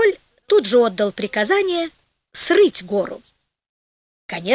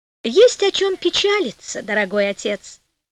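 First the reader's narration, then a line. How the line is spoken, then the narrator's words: Cheerful. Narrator (Russian): весело сказала Пантагеро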